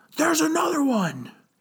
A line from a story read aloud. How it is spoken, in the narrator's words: one of the guards shout